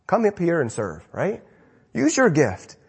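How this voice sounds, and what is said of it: Scolding parent-to-child voice. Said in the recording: “I'm going to talk like a parent to a kid to you.”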